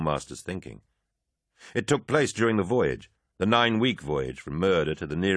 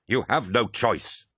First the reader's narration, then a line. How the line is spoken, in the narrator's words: Abaddon snarled